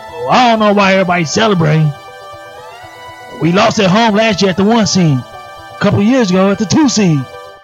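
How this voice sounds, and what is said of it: Imitates another person's voice. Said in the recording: “I can do a perfect impersonation of Brett Lautil”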